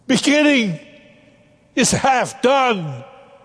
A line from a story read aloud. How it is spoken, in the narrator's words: After a dramatic pause, he shouted out